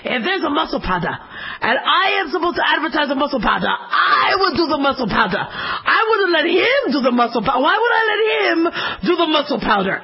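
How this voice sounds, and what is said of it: Arnold Schwarzenegger impression. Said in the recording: “he starts going off in his accent, and I can't do his accent very well ... Arnold Schwarzenegger accent”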